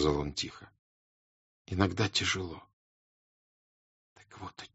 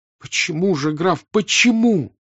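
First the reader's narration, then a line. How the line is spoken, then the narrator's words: Sudden near-cry. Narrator (Russian): вдруг почти вскрикнула она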